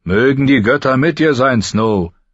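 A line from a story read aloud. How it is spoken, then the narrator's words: Calling across. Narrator (German): rief herüber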